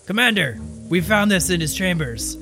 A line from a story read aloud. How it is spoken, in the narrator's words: a couple guards come out of the keep and they yell